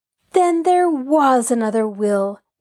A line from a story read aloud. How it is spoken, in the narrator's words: Nancy exclaimed aloud